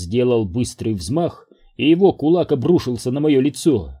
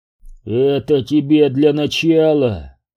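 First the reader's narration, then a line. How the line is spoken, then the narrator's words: Growl. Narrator (Russian): прорычал он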